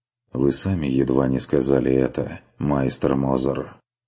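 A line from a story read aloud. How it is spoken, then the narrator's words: Sighing. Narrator (Russian): вздохнул Курт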